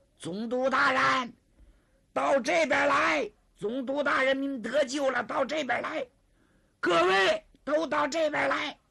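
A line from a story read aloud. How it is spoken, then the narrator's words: Shout. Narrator (Chinese): 孙烈臣、唐二虎、张世飞也喊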